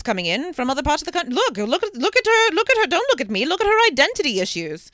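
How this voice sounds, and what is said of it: Weird old-timey British-ish accent. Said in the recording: “Your go-to accent for like old is just like, it's not even transatlantic. It's just like some weird... British... Ish”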